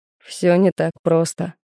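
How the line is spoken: Skeptical grunt. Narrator (Russian): хмыкнул Кирсанов

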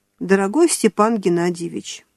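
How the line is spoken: Soft voice. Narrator (Russian): мягко произнесла она

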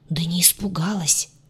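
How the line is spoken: Whispered. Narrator (Russian): также шепотом

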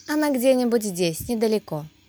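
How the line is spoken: Calm reply. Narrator (Russian): спокойно ответила Анастасия

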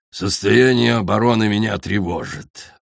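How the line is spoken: Growling. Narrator (Russian): прорычал он

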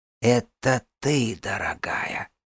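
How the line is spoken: Breathy whisper. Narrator (Russian): прошептала Вирга, добавив на выдохе

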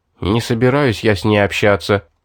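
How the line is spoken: Grumbling mutter. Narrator (Russian): пробурчал я

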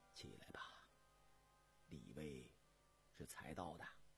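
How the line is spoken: Soft. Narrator (Chinese): 雍正轻声说道

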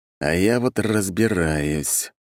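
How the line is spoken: Drawl. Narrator (Russian): протянул я

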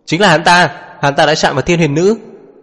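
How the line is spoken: Shouted. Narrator (Vietnamese): hét lên

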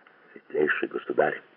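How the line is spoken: Very calm huntsman's reply. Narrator (Russian): ответил очень спокойно егерь

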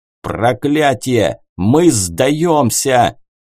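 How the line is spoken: Angry bark. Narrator (Russian): зло рявкнул адмирал

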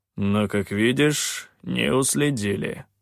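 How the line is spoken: Gloomy grumble. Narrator (Russian): мрачно проворчал Калан

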